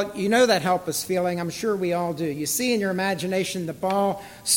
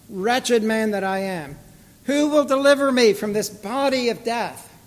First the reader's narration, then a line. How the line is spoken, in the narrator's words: In desperation and despair, Paul cried out